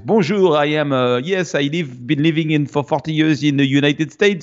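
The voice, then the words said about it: Strong put-on French accent. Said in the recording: “very strong French accent”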